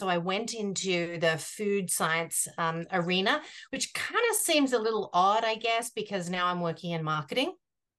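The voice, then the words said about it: Australian accent. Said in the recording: “if you can't tell from my accent... I began my journey in Australia. And so that's where the accent is from... the Australian accent”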